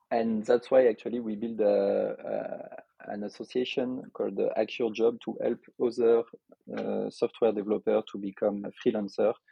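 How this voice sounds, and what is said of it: French accent. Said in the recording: “I am from Lyon in France, as you could expect from my accent.”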